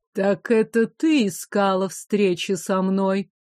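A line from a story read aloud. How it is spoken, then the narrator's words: Deep chesty female voice. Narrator (Russian): грудным голосом спросила женщина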